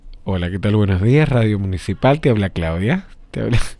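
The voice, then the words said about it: Radio announcer voice. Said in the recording (Spanish): “te pone voz de locutora”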